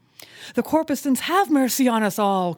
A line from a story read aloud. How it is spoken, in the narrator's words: cried Stubb again